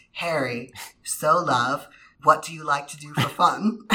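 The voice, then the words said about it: Put-on accent. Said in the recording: “accent work impeccable.”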